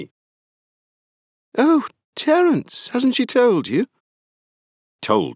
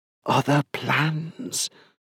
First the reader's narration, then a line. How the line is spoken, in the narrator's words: she whispered